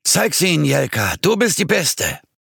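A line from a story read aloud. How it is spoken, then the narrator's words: Many voices echoing back. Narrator (German): eine Frau mit glühender Zigarette in der Hand rief mit kratziger Stimme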